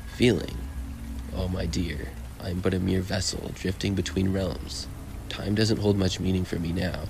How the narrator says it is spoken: he said

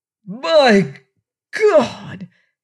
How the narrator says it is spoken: he roared

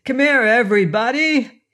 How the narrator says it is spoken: shouted

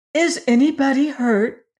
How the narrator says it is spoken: Dorothy asked anxiously

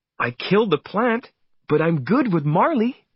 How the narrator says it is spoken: Jenny said happily

